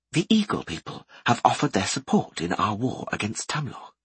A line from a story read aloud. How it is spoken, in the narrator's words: said Furcher quietly